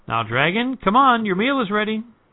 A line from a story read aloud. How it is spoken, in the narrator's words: called out